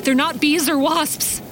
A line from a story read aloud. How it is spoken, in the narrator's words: Ross wailed, pain and fear in oscillating turns